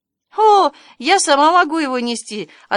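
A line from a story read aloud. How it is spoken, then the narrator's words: Cheerful girl. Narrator (Russian): отвечала девочка весело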